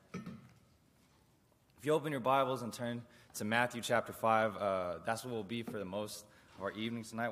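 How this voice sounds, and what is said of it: Worn-out, rough voice. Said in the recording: “Just got back from camp. My voice is terrible”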